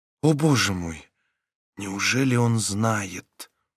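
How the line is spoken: Quiet whisper. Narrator (Russian): тихо прошептала она

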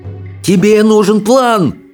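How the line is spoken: Frantic wailing. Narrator (Russian): вопил рыбий ног, суетливо бегая

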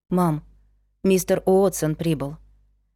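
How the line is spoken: Barely audible. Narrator (Russian): едва слышно сказала она

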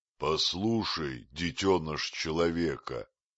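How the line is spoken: Thunderous bear's voice. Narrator (Russian): сказал медведь, и его голос прогремел точно раскат грома в знойную ночь

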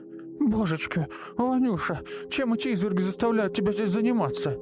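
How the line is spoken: Old woman shouting. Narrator (Russian): Боевая старушка закричала

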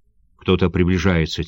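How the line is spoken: Quiet. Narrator (Russian): тихо сказал Камамори

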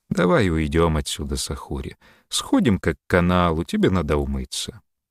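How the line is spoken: Gentle, tender. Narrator (Russian): Эмсаф ласково сказал

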